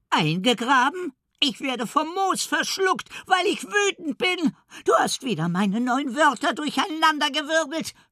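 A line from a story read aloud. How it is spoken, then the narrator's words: Frantic shriek. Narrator (German): kreischt Elli außer sich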